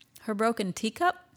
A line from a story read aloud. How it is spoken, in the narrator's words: he said